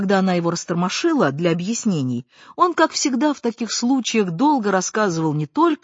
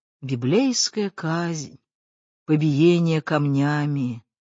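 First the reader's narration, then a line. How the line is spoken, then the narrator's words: Muttered. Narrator (Russian): Дядя Миша бормотал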